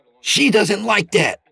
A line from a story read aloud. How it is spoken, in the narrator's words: Peter snapped